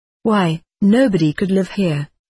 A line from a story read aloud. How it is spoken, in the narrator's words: I exclaimed